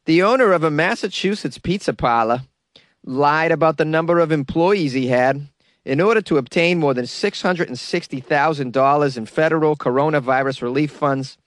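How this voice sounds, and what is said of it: Put-on Boston accent. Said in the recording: “I'm giving you a full-on Boston accent for this one, baby.”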